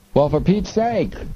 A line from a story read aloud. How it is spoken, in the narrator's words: the three cried out